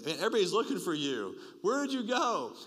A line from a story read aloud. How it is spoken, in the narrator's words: they exclaimed